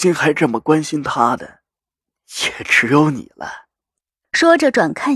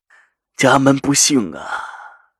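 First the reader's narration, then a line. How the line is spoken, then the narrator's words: Sighing. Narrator (Chinese): 赵心如叹了口气，说着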